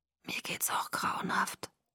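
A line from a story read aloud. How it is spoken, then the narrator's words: Whisper. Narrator (German): flüsterte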